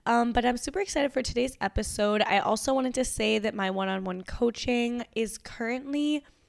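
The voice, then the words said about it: Nasal, raspy cold-affected voice. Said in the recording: “I have a little bit of a cold right now, so if my voice is a little bit nasally or like different or like raspy than normal”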